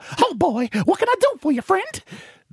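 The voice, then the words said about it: Mickey Mouse cartoon voice. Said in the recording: “Hey, Mickey Mouse, get over here.”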